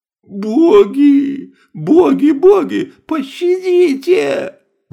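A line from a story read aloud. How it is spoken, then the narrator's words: Pleading official. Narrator (Russian): взмолился наместник города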